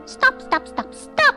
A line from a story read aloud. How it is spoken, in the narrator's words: chirped